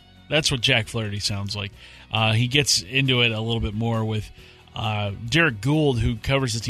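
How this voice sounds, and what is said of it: Usual voice. Nothing is said of it.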